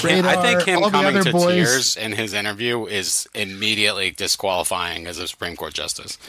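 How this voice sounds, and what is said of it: Usual voice. Nothing is said of it.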